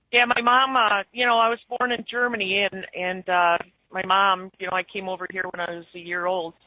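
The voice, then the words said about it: Noticeable northern US accent. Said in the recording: “northern accent ... are you from Canada? Did you, you know, Minnesota? ... It's definitely a noticeable accent”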